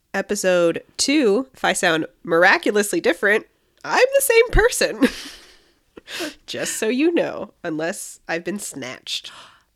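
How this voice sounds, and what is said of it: Slightly off, sick-sounding voice. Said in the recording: “I am still sick ... my voice sounds a little off”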